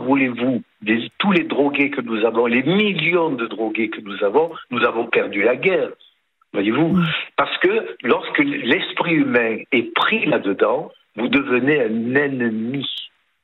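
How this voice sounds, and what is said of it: Sing-song Provençal French accent. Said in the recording (French): “ce petit accent chantant de Provence”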